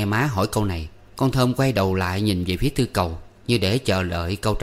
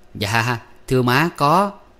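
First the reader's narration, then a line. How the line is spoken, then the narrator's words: Smiling reply. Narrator (Vietnamese): Tư Cầu ... nó mỉm cười đáp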